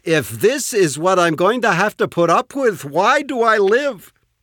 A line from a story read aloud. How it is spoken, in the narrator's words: she whines